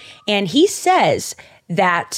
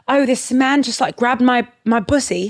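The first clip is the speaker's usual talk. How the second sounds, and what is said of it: Put-on British accent. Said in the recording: “your British accent ... Oh, it's terrible ... It's pretty good, actually.”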